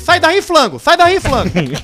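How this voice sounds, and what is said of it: Put-on Chinese accent. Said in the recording (Portuguese): “Com sotaque... chinês”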